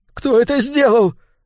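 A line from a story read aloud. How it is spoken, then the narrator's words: Sudden shriek. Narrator (Russian): внезапно взвизгнул Кейл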